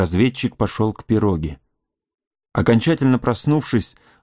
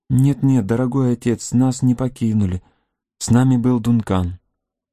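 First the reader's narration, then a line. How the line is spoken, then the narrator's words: Tender babbling voice. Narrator (Russian): Алиса же пролепетала своим нежным голоском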